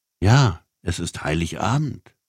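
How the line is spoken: Plain. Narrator (German): sagte die Frau

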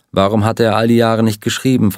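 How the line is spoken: Plain. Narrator (German): fragte Ed

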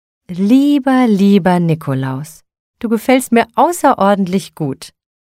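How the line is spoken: Delighted exclamation. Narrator (German): rief sie entzückt

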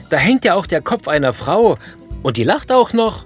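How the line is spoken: Screaming. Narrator (German): schreit der Besucher

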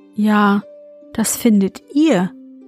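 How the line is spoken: Plain. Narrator (German): sagte

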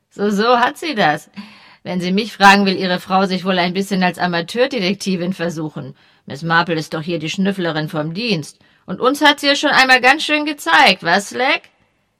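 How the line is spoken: Remark with soft laugh. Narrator (German): Mit leisem Lachen bemerkte

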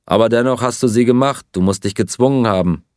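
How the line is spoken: Plain. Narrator (German): sagte Pierre

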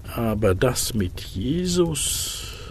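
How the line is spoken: Murmuring. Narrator (German): murmelte er

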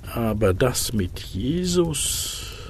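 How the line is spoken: Murmured. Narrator (German): murmelte er

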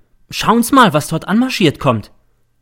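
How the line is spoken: Sudden call. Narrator (German): ruft plötzlich der M

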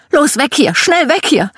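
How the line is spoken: Mother screaming. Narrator (German): Meine Mom schrie

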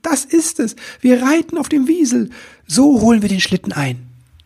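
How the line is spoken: Enthusiastic call. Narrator (German): rief er voller Begeisterung

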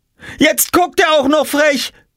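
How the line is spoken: Shouting. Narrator (German): schrie Jule

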